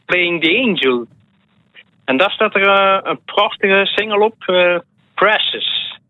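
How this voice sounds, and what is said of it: Strong Ghent Flemish accent. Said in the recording (Dutch): “je zegt dat met een fantastisch Gents accent”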